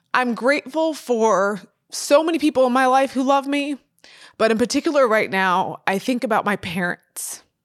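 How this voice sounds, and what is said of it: Emotional, tearful voice. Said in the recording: “I'm getting emotional ... I'm getting tearful”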